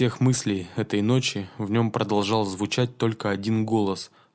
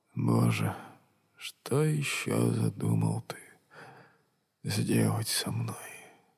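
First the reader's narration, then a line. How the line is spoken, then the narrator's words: Quiet, calm, sad, tearful. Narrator (Russian): Со спокойной грустью, еще со слезами на глазах, он тихонько сказал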